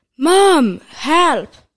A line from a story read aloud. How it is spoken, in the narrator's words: Jack shouted